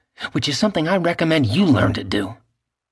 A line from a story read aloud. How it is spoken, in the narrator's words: she snapped